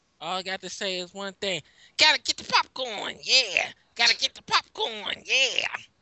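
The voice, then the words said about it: Sung imitation of another person's voice. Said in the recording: “sounds like the worst Bruno Mars song ever written ... it was supposed to be a James Brown impersonation”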